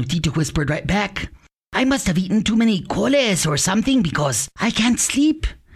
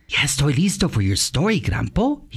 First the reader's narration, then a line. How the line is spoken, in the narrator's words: he whispered